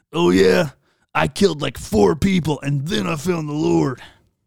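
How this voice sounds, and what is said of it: Puts on a character voice. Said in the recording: “I don't know why I do the voices. That's just what comes out of me.”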